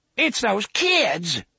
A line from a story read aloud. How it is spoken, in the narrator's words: Roy exclaimed